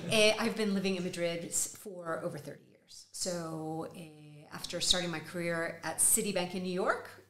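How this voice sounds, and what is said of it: Texas accent. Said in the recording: “With a Texas accent.”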